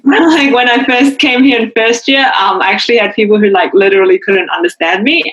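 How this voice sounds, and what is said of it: Slight New Zealand accent. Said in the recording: “still got a bit of that Kiwi twang.”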